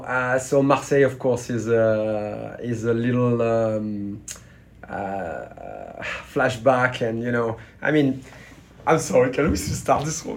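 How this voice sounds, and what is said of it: French accent. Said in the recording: “With my French accent, you'll probably figure out very quickly if you hear me for the first time.”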